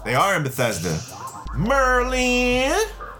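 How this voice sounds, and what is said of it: Poor put-on country accent. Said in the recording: “Was that country enough? ... my accent was terrible on that one.”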